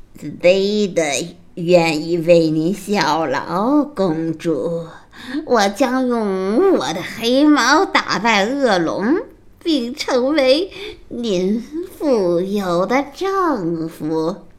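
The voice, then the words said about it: Harsh cracked raspy character voice. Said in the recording (Chinese): “用破锣似的声音说道”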